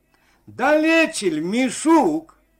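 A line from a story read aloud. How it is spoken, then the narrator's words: Friendly shout. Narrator (Russian): дружественно крикнул Максим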